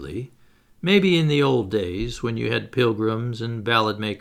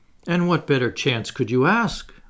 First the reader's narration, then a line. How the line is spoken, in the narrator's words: I cried